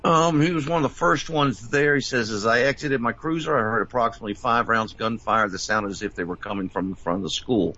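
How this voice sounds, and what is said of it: Rough, slightly hoarse voice. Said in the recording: “apologize for my voice, but it's a little rough”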